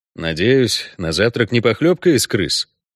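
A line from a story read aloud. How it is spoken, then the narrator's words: Gloomy question. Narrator (Russian): мрачно осведомился Геральт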